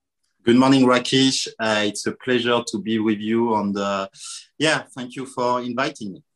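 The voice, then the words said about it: French accent. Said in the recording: “that lovely French accent of yours ... I still sound as if I've landed last night”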